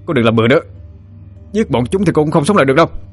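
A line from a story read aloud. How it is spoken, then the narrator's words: Shouted. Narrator (Vietnamese): Tứ Niên miệng hét lên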